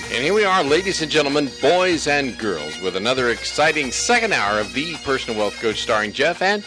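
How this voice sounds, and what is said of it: Serious announcer radio voice. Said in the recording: “my radio voice ... I used to have a serious radio voice.”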